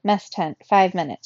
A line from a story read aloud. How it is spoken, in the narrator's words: she said